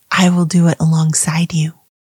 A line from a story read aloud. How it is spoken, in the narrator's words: the loving whisper of God saying